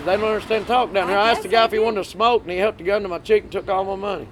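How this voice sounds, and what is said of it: Strong regional accent. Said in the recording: “you can't understand my accent. ... That's going to help your accent.”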